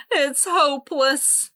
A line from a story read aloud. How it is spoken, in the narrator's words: wailed